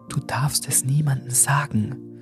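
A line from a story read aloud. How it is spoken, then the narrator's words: Trembling whisper. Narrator (German): flüsterte Bessie mit zitternder Stimme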